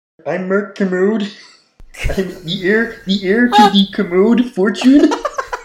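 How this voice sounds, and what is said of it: Kermit the Frog voice impression. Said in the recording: “your best Kermit impression ... That's not bad ... It's surprisingly impressive.”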